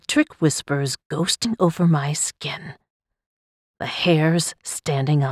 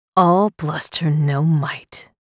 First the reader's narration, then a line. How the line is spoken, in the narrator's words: I chuckled